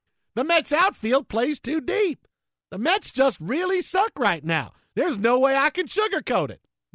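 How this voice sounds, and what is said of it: Imitates another person's voice. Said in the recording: “I haven't done my Tim McCarver impression since my dad's car in 1997.”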